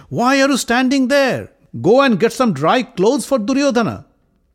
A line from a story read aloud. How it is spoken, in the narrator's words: He called out to the servants